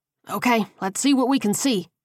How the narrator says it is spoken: Coleman grunted as he climbed up a dense tree

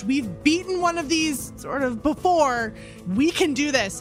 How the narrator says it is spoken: I'll just scream to Lorzach

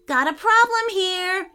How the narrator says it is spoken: shouted Harrison

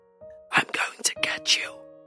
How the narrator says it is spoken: a whisper

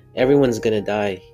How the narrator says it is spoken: he said

